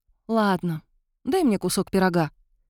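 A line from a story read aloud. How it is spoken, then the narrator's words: Resigned sighing request. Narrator (Russian): вздохнув, попросила, осознав, что уговаривать его бесполезно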